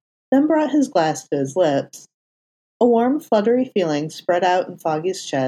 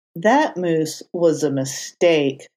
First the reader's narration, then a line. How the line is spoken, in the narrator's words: Matt groaned